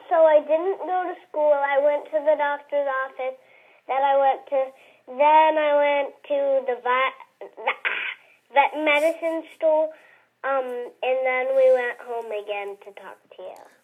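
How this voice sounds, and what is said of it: Child's voice with a cold. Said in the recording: “I have a little cold”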